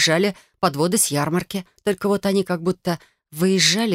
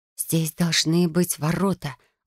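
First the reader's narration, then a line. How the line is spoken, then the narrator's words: Stubborn whisper. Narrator (Russian): упрямо прошептала я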